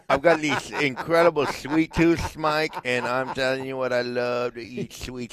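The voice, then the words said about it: Exaggerated lisp impersonation. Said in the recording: “can do a good lisp impersonation”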